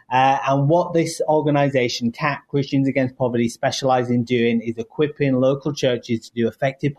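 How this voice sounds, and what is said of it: British accent. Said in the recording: “You might hear my accent. Yes, originally from the UK”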